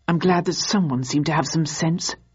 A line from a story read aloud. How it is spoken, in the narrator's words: murmured one of the SO1 agents